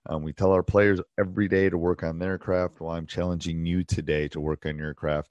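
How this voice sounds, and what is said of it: Hoarse, strained voice. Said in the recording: “apologize for my voice. ... It's a combination of yelling at officials and a cold”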